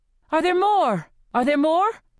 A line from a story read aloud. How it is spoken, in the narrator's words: I shout at Rue